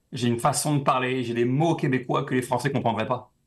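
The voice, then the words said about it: French accent leaning Québécois. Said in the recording (French): “mon accent, c'est vrai que pour toi, il est français, mais il est un peu, il a penché sur le québécois ... pour toi, je suis français, mais j'ai un petit accent”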